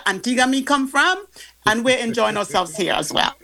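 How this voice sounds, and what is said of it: Caribbean Antiguan accent. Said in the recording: “get back into your accent”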